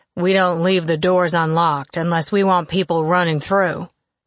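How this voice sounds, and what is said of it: Southern good old boy accent. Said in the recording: “he started with full good old boy accent ... His tinge of Arkansas accent”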